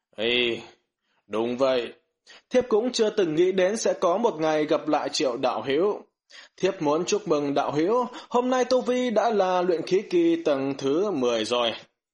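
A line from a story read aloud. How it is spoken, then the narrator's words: Sighing, calm speech. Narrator (Vietnamese): thở dài một tiếng thản nhiên, nói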